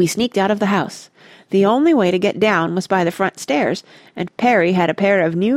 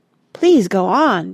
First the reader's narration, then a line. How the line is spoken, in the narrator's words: begged Mona